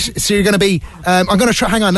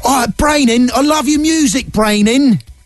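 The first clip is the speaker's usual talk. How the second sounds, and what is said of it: Put-on English accent, not convincing. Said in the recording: “let me think of an English accent there ... Sorry, any English listeners. I know that's not.”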